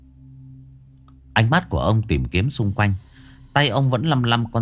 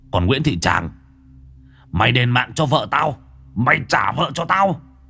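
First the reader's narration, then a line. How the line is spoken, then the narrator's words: Roaring. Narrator (Vietnamese): Ông lại gầm lên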